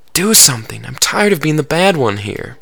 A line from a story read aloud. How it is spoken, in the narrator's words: whispered to him